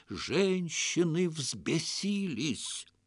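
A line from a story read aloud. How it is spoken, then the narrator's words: Dramatic whisper. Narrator (Russian): Хаджа страшным шепотом пояснил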